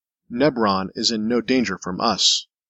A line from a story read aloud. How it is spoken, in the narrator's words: Reuter said, his tone flat